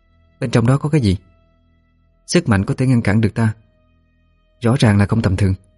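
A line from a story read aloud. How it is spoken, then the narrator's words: Soft question. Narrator (Vietnamese): Thanh khẽ hỏi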